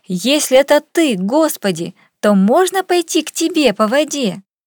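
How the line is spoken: Impetuous shout. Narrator (Russian): порывистый Петр крикнул

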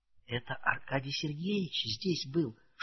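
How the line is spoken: Whispered explanation. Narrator (Russian): шепотом объяснила Саша

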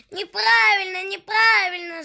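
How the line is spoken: Yelling bear cubs. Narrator (Russian): завопили медвежата

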